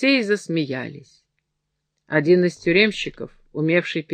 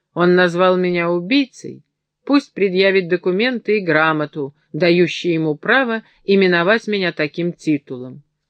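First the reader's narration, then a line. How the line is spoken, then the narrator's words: Calm reply. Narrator (Russian): Монсеньор Фабрицио спокойно ответил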